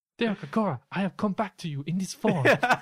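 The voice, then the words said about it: Impression of the character Sam. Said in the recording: “You should do a Sam impression in front of him.”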